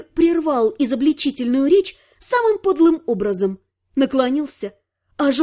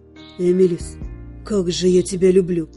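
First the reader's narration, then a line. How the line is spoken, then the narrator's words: Whisper. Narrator (Russian): прошептал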